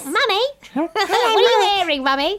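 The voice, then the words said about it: Posh child's voice. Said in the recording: “so posh, isn't she? She is posh. I love her accent.”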